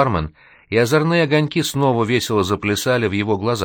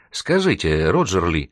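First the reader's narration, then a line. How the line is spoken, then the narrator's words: Timid continuation. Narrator (Russian): робко продолжила Вероника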